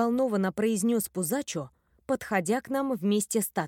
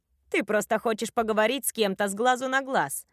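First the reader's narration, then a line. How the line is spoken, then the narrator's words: Knowing snort. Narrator (Russian): понятливо фыркнула Тата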